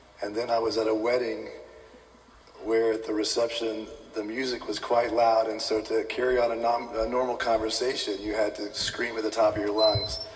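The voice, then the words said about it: Weak, strained voice. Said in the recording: “my voice is a little weak today ... I'm guilty of yelling through a football game yesterday”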